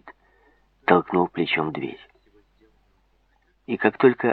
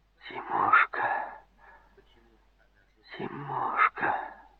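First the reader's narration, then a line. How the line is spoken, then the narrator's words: Barely audible whisper. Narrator (Russian): Еле слышно прошептала она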